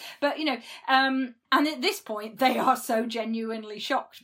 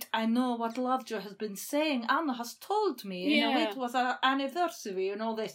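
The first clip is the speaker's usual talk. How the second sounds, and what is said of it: Poorly done put-on accent. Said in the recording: “It's a terrible accent, sorry.”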